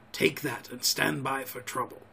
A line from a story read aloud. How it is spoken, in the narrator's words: he whispered